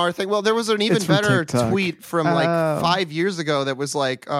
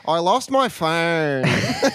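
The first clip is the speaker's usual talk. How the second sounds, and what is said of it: Imitated Australian girl's accent. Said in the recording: “Australian girl who's just lost her phone ... I love the Australian accent. It's so good.”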